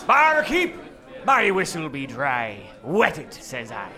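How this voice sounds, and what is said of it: Put-on old sailor accent. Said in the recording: “what's with the accent, sailor?”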